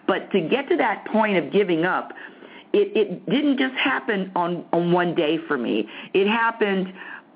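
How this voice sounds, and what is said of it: Loud, excited yelling. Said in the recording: “I don't know why I'm yelling. ... It really is excitement because, I mean, I'm really on a, woo!”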